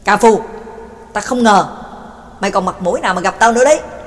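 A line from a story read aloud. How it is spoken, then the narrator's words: Angry roar. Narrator (Vietnamese): McKin hít sâu một hơi, giận dữ gầm lên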